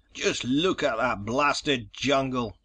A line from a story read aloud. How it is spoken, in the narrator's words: barked Stetson